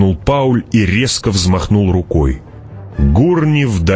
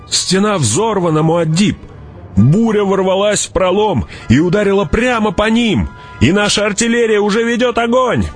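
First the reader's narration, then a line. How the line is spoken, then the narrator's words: Shouted urgently. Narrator (Russian): прокричал он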